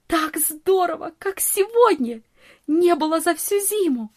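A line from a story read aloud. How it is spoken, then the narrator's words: Delighted exclamation. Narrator (Russian): восхищенно воскликнула Нони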